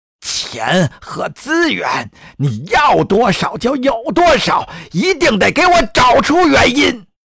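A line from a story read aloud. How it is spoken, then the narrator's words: Roaring. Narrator (Chinese): 总统咆哮着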